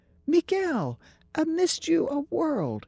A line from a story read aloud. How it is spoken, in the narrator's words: she exclaimed from a distance